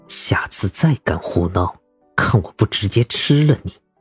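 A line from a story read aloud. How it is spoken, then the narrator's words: Through gritted teeth. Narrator (Chinese): 咬牙切齿道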